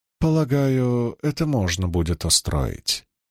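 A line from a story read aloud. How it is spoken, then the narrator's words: Calm reply. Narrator (Russian): спокойно ответила Илэйн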